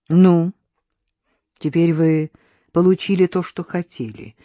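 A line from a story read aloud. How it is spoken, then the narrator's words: Even restrained tone. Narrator (Russian): проговорила Надежда ровным, сдержанным тоном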